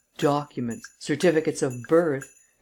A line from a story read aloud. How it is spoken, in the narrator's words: exclaimed the enemies of Rosen